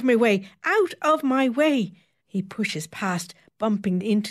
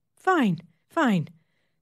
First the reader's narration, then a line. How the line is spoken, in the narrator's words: the nurse says, calmly